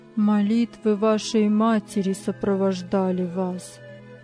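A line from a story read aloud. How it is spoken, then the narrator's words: Deep sigh. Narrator (Russian): глубоко вздохнул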